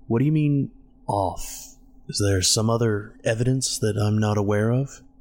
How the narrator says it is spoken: David sighed

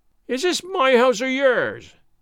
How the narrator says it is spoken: said he in his keen voice, and then all of a sudden broke off

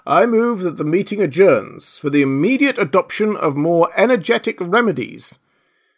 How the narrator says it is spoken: said the dodo solemnly

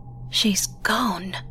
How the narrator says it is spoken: Susan breathed

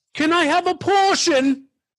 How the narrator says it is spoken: some lady screamed from the crowd

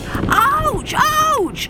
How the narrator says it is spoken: yelled as he jumped out of the fire

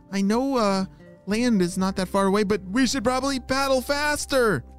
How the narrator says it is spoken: she shouted

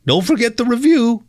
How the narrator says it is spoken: said, desperately

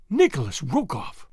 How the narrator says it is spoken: she exclaimed

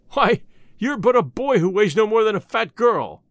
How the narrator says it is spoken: exclaimed their captain, a great bony fellow who was named Kambula

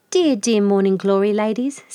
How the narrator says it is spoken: said Freckle Frog

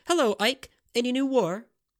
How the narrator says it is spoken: cheerfully had asked

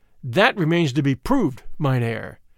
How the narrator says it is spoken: I answered hotly, for the insinuation that I had sold out stung me

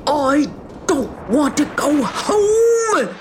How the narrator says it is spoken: He began to wave his hat around and screech

